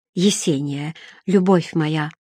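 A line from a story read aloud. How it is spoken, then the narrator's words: Whisper. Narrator (Russian): прошептал Эггард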